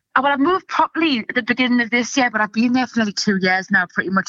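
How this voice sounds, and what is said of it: Softened Geordie accent with Scouse touches. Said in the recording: “the proper Geordie way ... my accent's gone all weird from doing comedy because I've had to soften it and change it and adapt it ... I can hear myself saying Scouse things ... mix Geordie and Scouse”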